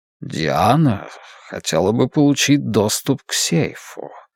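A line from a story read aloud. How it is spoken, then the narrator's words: Ingratiating purring voice. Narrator (Russian): сказал он вкрадчивым, мурлыкающим голоском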